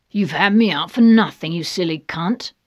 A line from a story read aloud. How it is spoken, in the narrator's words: snarls the gray man